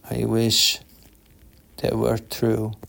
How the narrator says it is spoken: Guy said sadly

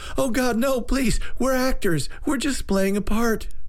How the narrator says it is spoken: thug number three screamed

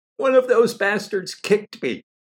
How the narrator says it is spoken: cried Ariane

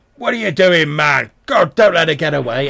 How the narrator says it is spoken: there is a little bit of a commotion, and you hear voice shout

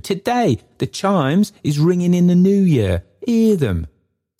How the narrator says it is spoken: cried Richard

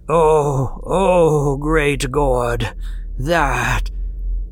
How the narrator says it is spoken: All he could do was moan half inaudibly

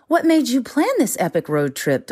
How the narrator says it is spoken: Delilah asked

